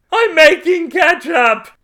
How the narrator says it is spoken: He screamed again

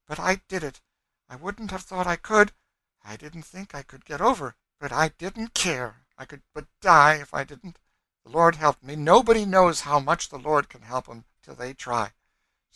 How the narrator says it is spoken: said wildly

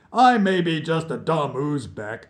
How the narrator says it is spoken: Muhammad roared

